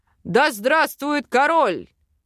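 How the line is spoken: Barked shout from crowd. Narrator (Russian): гаркнул какой-то эльф из толпы

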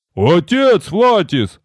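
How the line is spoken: Loud bark. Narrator (Russian): гаркнул Рикар

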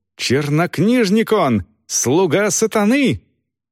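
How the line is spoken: Grandiloquent shouting. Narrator (Russian): пафосно заговорил монах и крикнул

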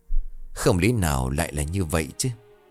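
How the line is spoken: Soft mutter. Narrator (Vietnamese): ông Hùng khẽ lẩm bẩm trong miệng

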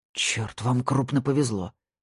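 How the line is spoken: Hoarse rasp. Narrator (Russian): прохрипел

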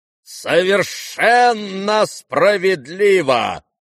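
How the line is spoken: Sudden booming from afar. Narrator (Russian): прогремел вдруг из глубины комнаты генерал Иволгин

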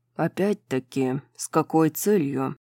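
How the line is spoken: Hoarse question. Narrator (Russian): хрипло спросил Хант

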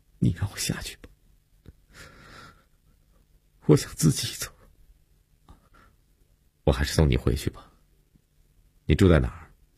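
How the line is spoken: Choked sobbing. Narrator (Chinese): 悠悠哽咽着说

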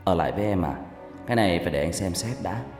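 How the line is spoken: Soft, smiling reply. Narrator (Vietnamese): Tôi mỉm cười khẽ đáp

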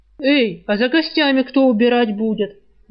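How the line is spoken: Barking shout. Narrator (Russian): гаркнул кормилец на служанку

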